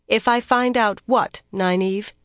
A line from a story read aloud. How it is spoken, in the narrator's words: she asked firmly